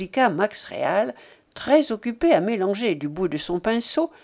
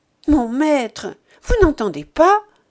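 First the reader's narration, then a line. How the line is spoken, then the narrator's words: Exclamation. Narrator (French): s'écria Tommy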